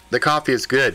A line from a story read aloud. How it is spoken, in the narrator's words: said Melissa